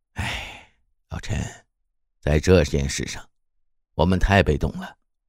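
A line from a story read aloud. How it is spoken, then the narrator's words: Long sigh. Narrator (Chinese): 刘冲天一声长叹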